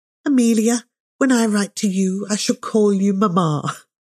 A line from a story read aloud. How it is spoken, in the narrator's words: the orphan, little said, looking up in her face wistfully